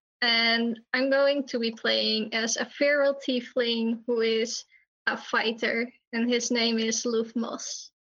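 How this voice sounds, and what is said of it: Dutch accent. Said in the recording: “I'm Dutch, so my accent may be prominent”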